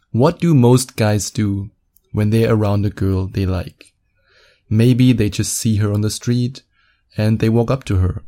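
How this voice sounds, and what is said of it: German accent. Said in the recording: “a sweet, sweet German accent.”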